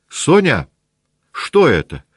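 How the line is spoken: Shout. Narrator (Russian): крикнула Наташа

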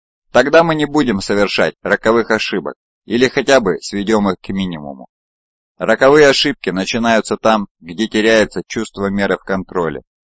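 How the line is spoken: Sharp objection. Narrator (Russian): резко возразил Пенки

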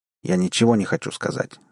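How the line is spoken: Sharp reply. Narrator (Russian): довольно резко ответил Барри

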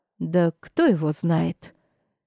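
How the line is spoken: Muffled reply. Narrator (Russian): Глухо отозвалась Мавис

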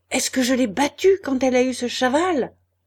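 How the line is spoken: Shouting woman. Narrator (French): criait-elle à Étienne

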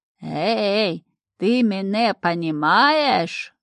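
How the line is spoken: Loud, slow question. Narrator (Russian): Громко и медленно вопрошал он

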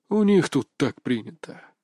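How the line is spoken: Thoughtful drawl, to himself. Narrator (Russian): задумчиво протянул словно говоря сам с собой

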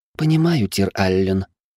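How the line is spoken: Young woman sighing. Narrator (Russian): девушка вздохнула

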